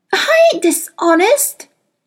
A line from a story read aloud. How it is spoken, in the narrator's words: Lyra cried